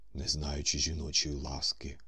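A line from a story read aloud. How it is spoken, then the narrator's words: Remarked in choked voice. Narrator (Ukrainian): зауважив Корейко здушеним голосом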